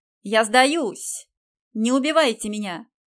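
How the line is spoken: Shouting. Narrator (Russian): прокричал

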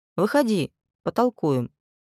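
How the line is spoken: Quiet. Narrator (Russian): тихо

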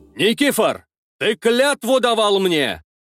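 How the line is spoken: Indignant shout. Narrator (Russian): возмущенно выкрикнул Иван Ростиславич Берладник, князь Галича

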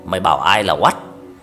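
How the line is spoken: Child's hoarse shout. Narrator (Vietnamese): Đứa bé tự nhiên quát lại bằng cái giọng ồm ồm re re

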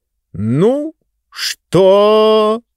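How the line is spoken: Slow drawl. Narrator (Russian): медленно протянул мистер спикер

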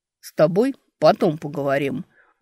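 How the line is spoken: Barking. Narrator (Russian): рявкнул Эберт

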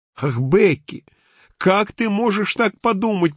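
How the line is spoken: Moan. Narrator (Russian): простонал мистер Адамс

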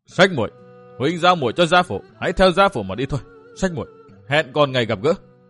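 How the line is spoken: Roaring, laughing madly. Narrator (Vietnamese): hét rống lên, lại cười như điên dại nói

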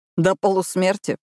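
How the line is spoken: Snort. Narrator (Russian): фыркнул Уилл

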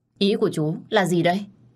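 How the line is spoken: Resentful. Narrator (Vietnamese): tôi hậm hực nói

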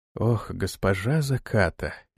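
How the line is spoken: Barely audible. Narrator (Russian): еле слышно проговорил он

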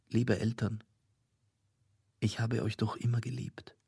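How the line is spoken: Calling softly. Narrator (German): rief leise

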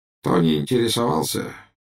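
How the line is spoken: Weak voice. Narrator (Russian): слабым голосом сказал Буш

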